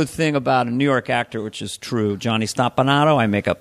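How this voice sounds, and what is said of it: Usual voice. Nothing is said of it.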